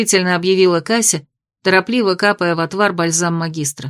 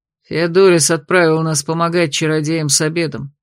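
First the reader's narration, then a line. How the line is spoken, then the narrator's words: Gloomy announcement. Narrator (Russian): мрачно объявил блондин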